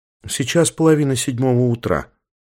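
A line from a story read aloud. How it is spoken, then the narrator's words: Calm statement. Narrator (Russian): спокойно сообщила она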